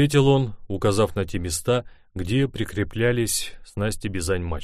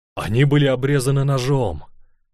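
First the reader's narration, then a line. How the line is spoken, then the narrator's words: Exclaiming. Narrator (Russian): воскликнул я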